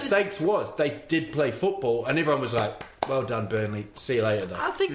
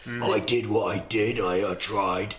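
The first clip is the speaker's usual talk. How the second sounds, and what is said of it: Impression of Sean Dyche. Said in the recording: “That's actually quite a good impression ... I'm Sean Dyke ... That's pretty good.”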